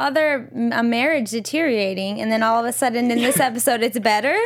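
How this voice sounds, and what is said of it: Usual voice. Nothing is said of it.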